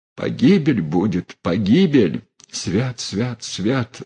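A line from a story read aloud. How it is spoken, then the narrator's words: Mumbled. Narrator (Russian): сбормотала Мелания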